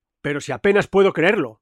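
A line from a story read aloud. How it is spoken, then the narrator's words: Mistress exclaiming. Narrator (Spanish): exclamaba mi ama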